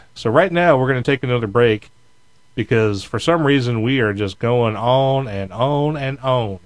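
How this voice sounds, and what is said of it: Put-on American Southern accent. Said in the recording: “Hear that southern accent there, Richard? ... I'm doing it deliberately, just so you can think I'm becoming a southern boy”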